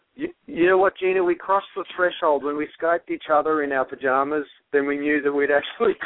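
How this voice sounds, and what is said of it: Accent sounding Australian. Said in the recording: “My accent sounds Australian on the radio. It's very strange.”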